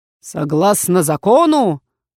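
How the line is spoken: Deafening bellow. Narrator (Russian): гаркнул так, что в ушах зазвенело

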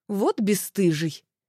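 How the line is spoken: Amused snort. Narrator (Russian): Велес хмыкнул

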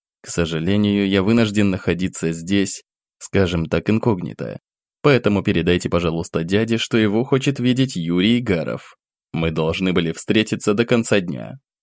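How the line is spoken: Whisper. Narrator (Russian): понизив голос до шепота, добавил

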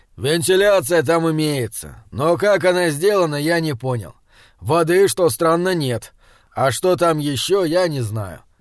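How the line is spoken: Calm, clipped. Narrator (Russian): спокойно отчеканил Раптор

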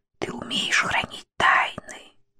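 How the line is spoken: Whisper. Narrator (Russian): она прошептала

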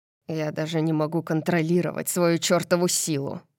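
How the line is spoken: Muttering. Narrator (Russian): Бормочет он

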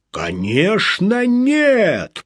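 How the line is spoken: Growled. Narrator (Russian): прорычал

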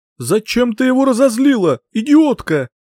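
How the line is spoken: Shouting over a roar. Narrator (Russian): закричала, пытаясь переорать рев зверя

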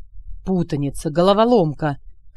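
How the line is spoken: Groan. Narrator (Russian): простонал Алекс

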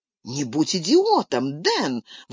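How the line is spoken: Indignant exclamation. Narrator (Russian): возмущенно воскликнула Джулия

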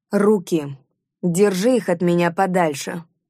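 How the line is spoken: Sullen growl. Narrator (Russian): угрюмо прорычала я

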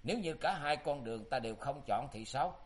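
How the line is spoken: Laughing. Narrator (Vietnamese): Tư Đồ Văn bật cười

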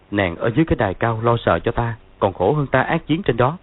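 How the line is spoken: Smiling speech. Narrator (Vietnamese): Dương Quá mỉm cười nói

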